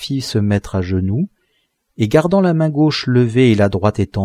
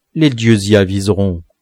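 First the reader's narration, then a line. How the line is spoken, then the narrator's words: Plain. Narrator (French): répondit Shaabarim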